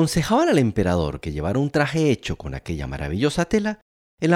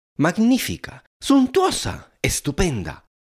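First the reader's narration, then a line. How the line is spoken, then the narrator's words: Crowd exclaiming. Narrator (Spanish): eran las exclamaciones que pasaban de boca en boca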